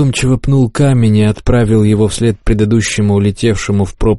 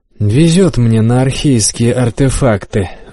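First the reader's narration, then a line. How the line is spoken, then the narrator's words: Sighing. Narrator (Russian): вздохнул я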